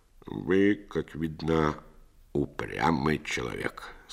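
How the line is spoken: Very grim. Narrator (Russian): сказал он весьма мрачно

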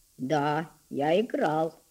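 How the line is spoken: Husky, timid voice. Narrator (Russian): ответил он голосом несколько сиплым от мороза и от робости

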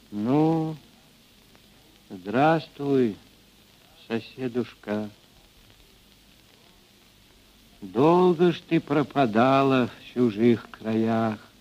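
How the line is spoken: Quiet. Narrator (Russian): Ильинична, мать Григория Мелехова, негромко сказала

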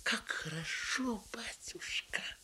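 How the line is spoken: Whisper. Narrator (Russian): прошептала

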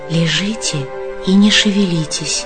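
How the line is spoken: Whisper. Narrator (Russian): прошептала она

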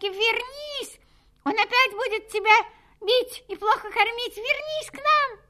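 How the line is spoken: Girls shouting. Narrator (Russian): закричали девочки

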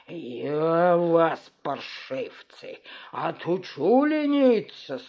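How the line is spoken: Fierce growl. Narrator (Russian): свирепо зарычал он

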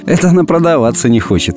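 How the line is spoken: Laughing. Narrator (Russian): посмеялась я

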